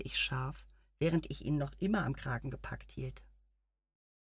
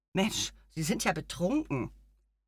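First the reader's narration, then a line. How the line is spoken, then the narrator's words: Angry shout. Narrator (German): rief ich zornig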